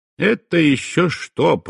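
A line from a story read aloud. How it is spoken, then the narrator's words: Grumbling. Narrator (Russian): проворчал я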